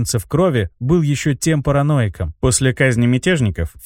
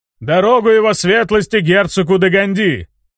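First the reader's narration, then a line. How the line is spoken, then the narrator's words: Booming yell, broad-shouldered rider. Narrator (Russian): Зычным голосом орал широкоплечий всадник на черном коне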